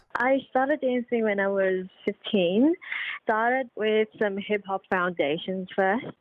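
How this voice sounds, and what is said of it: Mixed accent, partly Australian. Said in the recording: “you adopted the accent pretty good ... I have a mixed accent, some sort”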